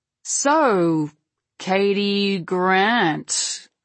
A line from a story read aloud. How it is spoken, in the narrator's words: Malakoff purrs